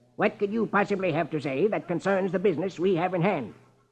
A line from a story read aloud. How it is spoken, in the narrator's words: Marlowe snaps